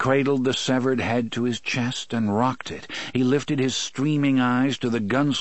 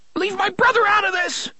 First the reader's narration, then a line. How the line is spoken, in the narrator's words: Eddie shrieked childishly, and another fit of shuddering went through him